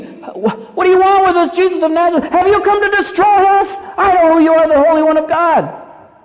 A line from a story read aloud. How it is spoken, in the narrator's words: in fear, he screams